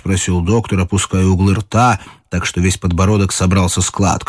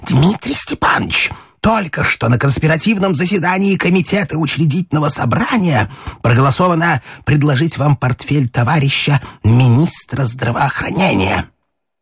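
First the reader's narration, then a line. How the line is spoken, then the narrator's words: Loud spluttering whisper. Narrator (Russian): брызгаясь, громко зашептал в самое ухо доктору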